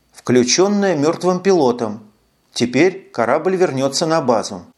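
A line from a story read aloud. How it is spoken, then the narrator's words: Gloomy supposition. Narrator (Russian): мрачно предположил Трэвис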